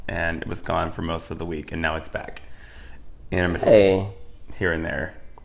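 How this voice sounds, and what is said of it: Slightly raspy voice. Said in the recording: “Richie lost his voice last week ... I lost my voice ... A little raspy”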